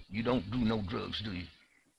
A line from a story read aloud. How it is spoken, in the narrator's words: Wendell stammered